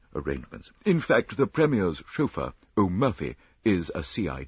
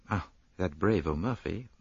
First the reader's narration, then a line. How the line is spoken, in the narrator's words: murmured Poirot thoughtfully